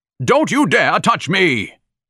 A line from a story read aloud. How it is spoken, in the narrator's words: He bellowed through the scarf